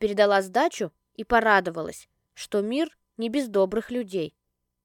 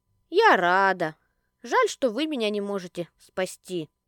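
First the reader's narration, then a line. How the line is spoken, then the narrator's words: Woman sighing. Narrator (Russian): Вздохнула женщина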